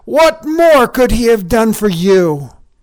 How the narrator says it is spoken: shouted

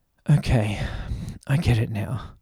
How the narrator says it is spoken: Max panted

